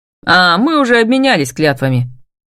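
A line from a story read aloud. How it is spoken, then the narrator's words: Displeased, curt. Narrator (Russian): недовольно бросает Лиам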